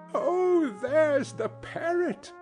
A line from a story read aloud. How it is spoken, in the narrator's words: cried Scrooge